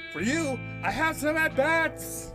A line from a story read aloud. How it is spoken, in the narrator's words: she shouted